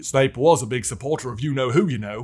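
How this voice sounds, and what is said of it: Impression of a fictional character's voice. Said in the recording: “my Ron impression”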